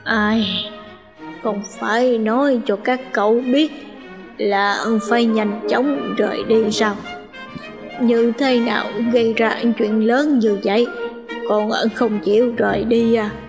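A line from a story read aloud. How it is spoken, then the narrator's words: Sighing mutter. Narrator (Vietnamese): Ngô Tam Thúc thở dài, tựa hồ lẩm bẩm nói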